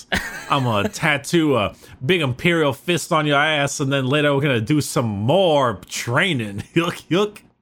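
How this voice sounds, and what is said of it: Put-on Southern hick accent, slightly Cajun. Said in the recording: “I don't know why you made them all sound like Southern country hicks ... you sounded Cajun when you did my impression of Southern ... you sounded a little Cajun”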